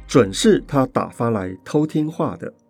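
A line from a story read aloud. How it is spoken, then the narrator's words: Soft, smirking. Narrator (Chinese): 逸飞 扁着嘴笑了一笑，轻声地说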